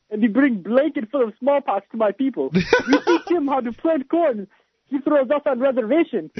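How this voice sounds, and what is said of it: Put-on stereotyped Native American accent. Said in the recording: “I don't know if the accent is quite accurate ... He's doing like Paul Revere and the Raiders imitation here”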